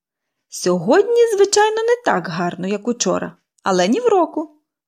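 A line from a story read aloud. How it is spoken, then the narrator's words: Cheerful. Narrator (Ukrainian): весело повідомила Поліанна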